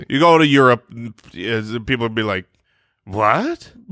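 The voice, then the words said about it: Mock generic European accent. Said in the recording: “That was a very nice European accent ... It was kind of an amalgamation”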